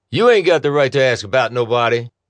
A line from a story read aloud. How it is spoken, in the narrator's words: barked the other man